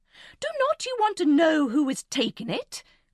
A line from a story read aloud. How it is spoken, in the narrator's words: cried impatiently